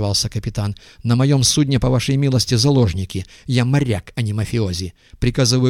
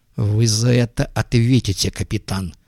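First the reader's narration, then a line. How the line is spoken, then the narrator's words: Hissed. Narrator (Russian): буквально прошипел Глоттер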